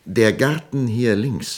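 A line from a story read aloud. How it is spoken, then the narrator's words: Plain. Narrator (German): sagte Woldemar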